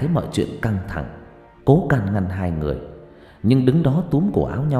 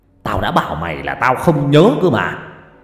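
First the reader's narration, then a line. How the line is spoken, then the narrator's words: Sudden loud yelling. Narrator (Vietnamese): Long bất chợt quát tháo ầm ĩ về phía ông Lý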